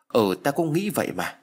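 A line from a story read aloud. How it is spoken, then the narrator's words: Stammering. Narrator (Vietnamese): nó lắp bắp trả lời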